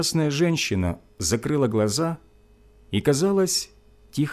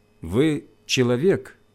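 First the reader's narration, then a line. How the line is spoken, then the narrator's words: Plain. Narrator (Russian): спросил я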